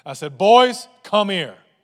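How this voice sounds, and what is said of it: Stern commanding dad voice. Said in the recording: “in my dad voice”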